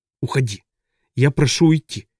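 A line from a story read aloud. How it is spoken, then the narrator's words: Hoarse. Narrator (Russian): хрипло сказал Сис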